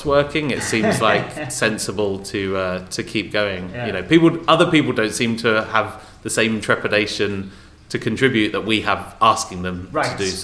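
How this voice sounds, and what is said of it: Non-Californian, English accent. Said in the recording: “people can tell from your accent you're not from California”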